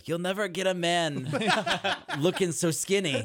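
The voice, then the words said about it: Brooklyn Jewish accent. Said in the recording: “Is this an aunt or a Jewish mother? ... I only do one accent ... Brooklyn Jew is every single accent ... it's spot on”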